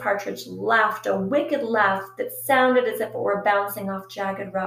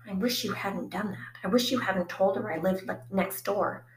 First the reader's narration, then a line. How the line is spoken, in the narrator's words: Phoebe whispered